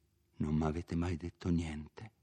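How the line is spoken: Whisper. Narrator (Italian): Renzo sussurrò

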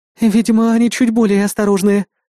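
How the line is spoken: Sighing. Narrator (Russian): вздохнула белый жнец

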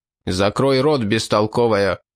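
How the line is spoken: Rude, cutting off. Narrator (Russian): грубо оборвал девушку граф

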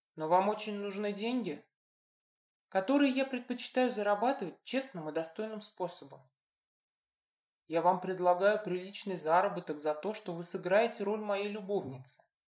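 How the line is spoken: Calm. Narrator (Russian): спокойно кивнул он

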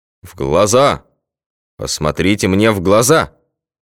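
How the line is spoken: Sudden hypnotic bass yell. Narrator (Russian): Снова вдруг гипнотизерским басом заорал врач

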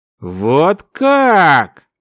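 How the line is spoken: Drawn-out drawl. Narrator (Russian): протянул эльф

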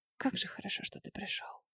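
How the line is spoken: Whisper. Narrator (Russian): шептала

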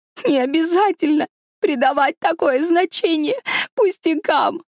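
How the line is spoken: Sobbing. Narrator (Russian): проговорила она сквозь рыдание

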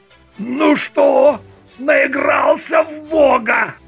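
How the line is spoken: Growl. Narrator (Russian): Ганин рыкнул

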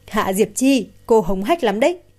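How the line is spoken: Angry laugh. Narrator (Vietnamese): Tần Thủy San tức đến bật cười

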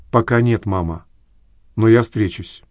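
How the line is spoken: Quiet reply. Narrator (Russian): Дочь также тихо ответила

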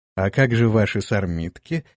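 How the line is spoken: Laughing question. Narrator (Russian): смеясь спросила вдова

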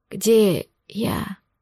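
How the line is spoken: Strained whisper. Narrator (Russian): с трудом прошептал

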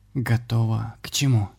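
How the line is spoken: Barely audible whisper. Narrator (Russian): Еле слышно прошептала ведьма

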